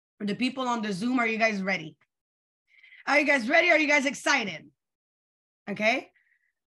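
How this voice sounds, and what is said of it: Hoarse, tired, fading voice. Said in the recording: “I'm losing my voice... I'm losing my voice. I sound a little crazy... I just have a little tired voice”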